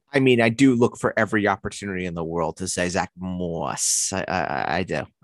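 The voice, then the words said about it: Long Island accent. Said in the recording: “You just wanted to say Zach Moss in your Long Island accent ... The inconsistent Long Island accent. Yes, the Port Washington accent.”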